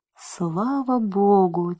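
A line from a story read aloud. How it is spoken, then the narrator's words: Quiet whisper. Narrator (Russian): тихо шепнул Джим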